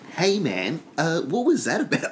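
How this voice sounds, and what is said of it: Confrontational character voice. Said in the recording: “We were doing an impression earlier of, like, someone who's just found out you've been talking smack about them, and they approach you in real life ... Perfect.”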